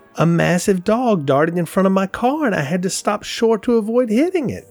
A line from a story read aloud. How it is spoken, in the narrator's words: Betsy exclaimed